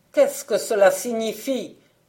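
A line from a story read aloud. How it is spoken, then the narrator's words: Grumbling. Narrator (French): dit l'empereur en grommelant quand il apprit l'évasion du petit oiseau gris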